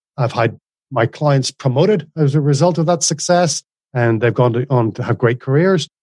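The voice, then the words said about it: Mixed Northern Irish accent. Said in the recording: “this isn't Australian, but it's like, it's not English either ... originally Northern Ireland, but also like a combination of everywhere you've lived”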